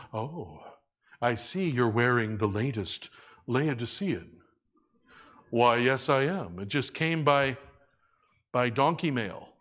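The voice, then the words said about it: Put-on English accent. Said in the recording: “I don't know why I have an English accent when I'm doing this impression”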